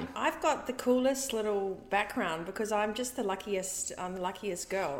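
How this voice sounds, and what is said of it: New Zealand accent. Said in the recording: “that's a New Zealand accent.”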